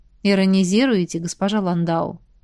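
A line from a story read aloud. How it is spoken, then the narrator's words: Man, sad smile. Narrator (Russian): грустно улыбнулся мужчина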